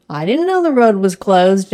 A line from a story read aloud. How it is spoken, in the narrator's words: John laughs